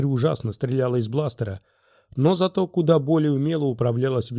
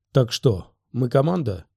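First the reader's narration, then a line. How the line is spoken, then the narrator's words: Gloomy reply. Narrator (Russian): Оби-Ван мрачно ответил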